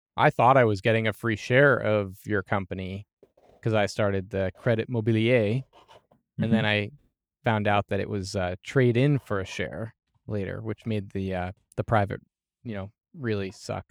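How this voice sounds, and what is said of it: Sarcastic delivery. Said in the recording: “I'm being sarcastic, by the way”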